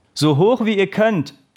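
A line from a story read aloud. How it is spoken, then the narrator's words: Calling out. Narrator (German): rief der Trainer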